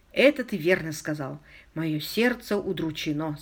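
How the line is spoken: Quiet weeping speech. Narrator (Russian): сказал Уилмот, тихо плача

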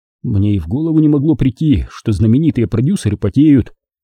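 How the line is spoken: Innocent exclamation. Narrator (Russian): воскликнул я с невинным лицом

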